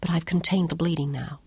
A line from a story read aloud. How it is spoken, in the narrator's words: whispered